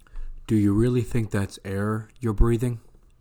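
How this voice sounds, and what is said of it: Morpheus impression. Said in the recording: “my Morpheus impersonation”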